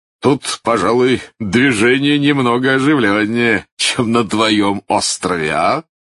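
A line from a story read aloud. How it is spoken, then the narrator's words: Laughing. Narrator (Russian): засмеялся мистер Хантер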